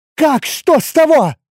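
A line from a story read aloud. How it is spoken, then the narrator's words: Furious shout. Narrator (Russian): Яростно выкрикнула Кари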